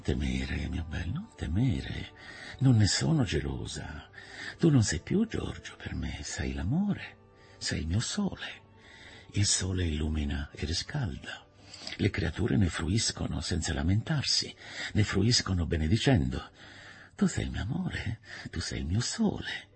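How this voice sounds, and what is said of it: Caressing, tender tone. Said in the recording (Italian): “aggiunse con accento carezzevole”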